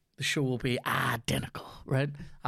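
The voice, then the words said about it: Imitates a film character's voice. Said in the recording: “That's from my cousin Vinny. That's a great impression of that.”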